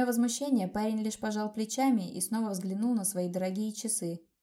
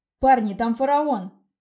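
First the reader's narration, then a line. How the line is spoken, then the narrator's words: Shouted. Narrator (Russian): крикнул кто-то из ребят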